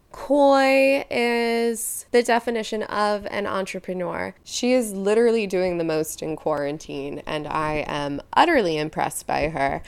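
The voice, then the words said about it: Speaking with heavy vocal fry. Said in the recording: “enough of my vocal fry ... You should be getting all of my vocal fry.”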